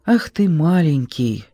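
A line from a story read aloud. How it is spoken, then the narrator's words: Affectionate tone. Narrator (Russian): ласково говорит Василий Константинович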